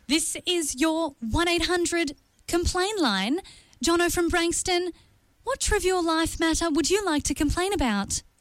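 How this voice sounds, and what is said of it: Automated telephone voice. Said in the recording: “in my best automated telephone voice”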